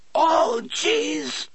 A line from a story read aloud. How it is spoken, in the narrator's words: Jimmy Dretto screamed in a strangled, breathy voice